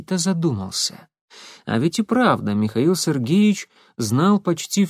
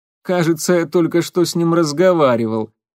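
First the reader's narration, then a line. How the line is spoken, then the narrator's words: Short laugh. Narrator (Russian): коротко хохотнул Легостаев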